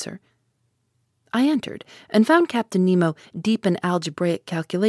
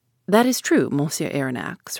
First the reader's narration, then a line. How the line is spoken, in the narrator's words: replied the captain